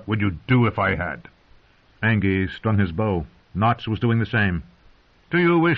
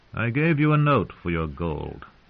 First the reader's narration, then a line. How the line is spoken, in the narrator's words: Lord Beric said calmly